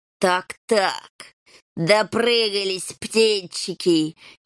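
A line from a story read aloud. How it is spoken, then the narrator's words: Snide hiss. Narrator (Russian): ехидно прошипел хромой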